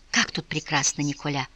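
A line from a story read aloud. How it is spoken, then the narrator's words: Whispered. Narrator (Russian): прошептала путешественница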